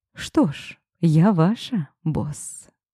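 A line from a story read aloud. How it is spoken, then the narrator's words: Quiet voice. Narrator (Russian): произнесла негромко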